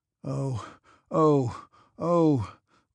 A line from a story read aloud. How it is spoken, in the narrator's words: groaned Kutuzov despairingly